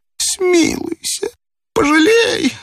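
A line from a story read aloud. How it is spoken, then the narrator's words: Old man moaning. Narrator (Russian): стонал старик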